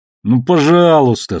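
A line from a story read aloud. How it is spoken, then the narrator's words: Whining plea. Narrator (Russian): скулил из камеры Уильямс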